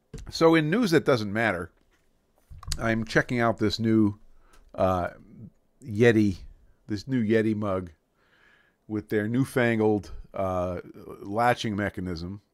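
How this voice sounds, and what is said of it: Slightly odd voice from a cold. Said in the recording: “I sound a little weird today, it's because I had I think I have a little cold”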